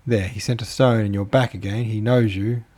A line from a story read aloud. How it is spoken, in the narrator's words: cried the children